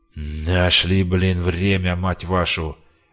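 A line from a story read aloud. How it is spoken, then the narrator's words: Menacing soldier's growl. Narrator (Russian): грозно рыкнул один из вояк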